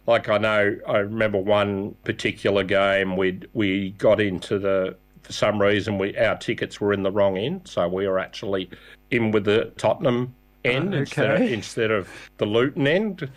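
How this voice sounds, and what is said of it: Australian accent. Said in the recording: “my accent... Being Australian helps.”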